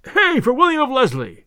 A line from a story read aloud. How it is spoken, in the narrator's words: shouted others yet again